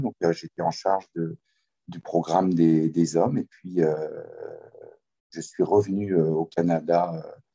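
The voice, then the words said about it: Slight Québécois French accent. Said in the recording (French): “mon accent est teinté d'un peu de québécois... C'est léger... tu as, as, pris un petit peu l'accent québécois”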